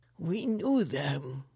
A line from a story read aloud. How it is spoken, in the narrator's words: he whimpered